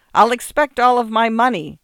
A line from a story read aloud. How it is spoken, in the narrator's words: the artist shouted